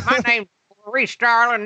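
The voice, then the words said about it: Imitated Southern American accent. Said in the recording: “Clarice kind of has like a down, down, down. ... This is how real Southern people, this is how Southern people talk in real life.”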